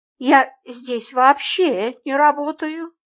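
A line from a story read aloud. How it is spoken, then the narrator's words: Lost voice, young woman. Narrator (Russian): потерянным голосом сказала девушка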